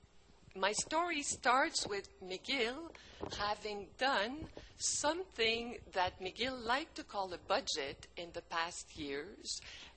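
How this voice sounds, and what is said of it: French-speaker's accent in English. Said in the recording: “I was born francophone, so there is some accent ... all that with accent and hesitation maybe”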